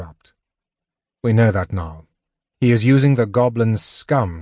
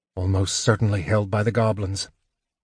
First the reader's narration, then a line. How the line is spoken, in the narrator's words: muttered Sturm